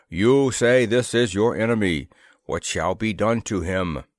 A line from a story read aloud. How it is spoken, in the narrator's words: boomed this individual cordially